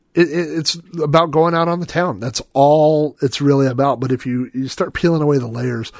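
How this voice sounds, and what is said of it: Strained, hoarse voice. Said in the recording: “I'm losing my voice. I've been talking about music for so long.”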